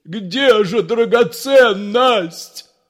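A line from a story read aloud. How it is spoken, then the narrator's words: Leader shouting. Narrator (Russian): закричал предводитель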